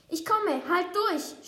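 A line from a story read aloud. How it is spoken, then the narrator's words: Shout. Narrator (German): schreit Dodo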